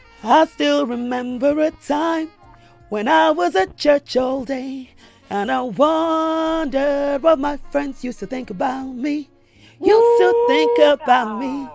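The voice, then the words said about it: Nervous singing with shaking voice. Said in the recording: “I'm so nervous. My voice is literally shaking. ... Voice is shaking.”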